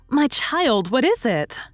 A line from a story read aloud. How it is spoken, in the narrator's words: cried her mother, running to her